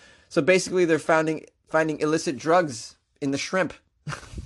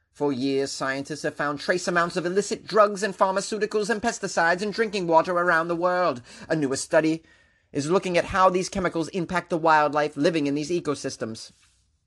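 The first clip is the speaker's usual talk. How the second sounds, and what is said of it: Reads news in a put-on accent. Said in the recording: “Are you able to pay attention to what I'm saying with this accent? I can't. I'm concentrating on the accent.”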